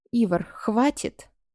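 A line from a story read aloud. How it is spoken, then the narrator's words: Calm. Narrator (Russian): спокойно проговорил Саввард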